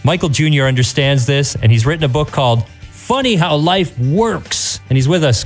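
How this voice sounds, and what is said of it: Polished radio announcer voice. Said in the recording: “Your radio voice is amazing.”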